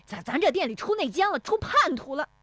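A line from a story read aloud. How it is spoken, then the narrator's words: Exasperated shouting. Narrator (Chinese): 石有福奔进店里，气急败坏的嚷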